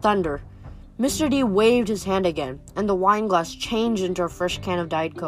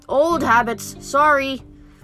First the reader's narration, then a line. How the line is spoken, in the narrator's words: yelled